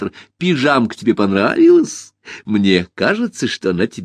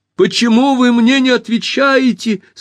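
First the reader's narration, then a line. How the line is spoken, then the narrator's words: Loud shout. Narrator (Russian): совсем громко закричала Алиса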